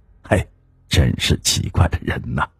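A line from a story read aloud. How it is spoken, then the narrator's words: Inward sigh. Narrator (Chinese): 有人……心里估计叹着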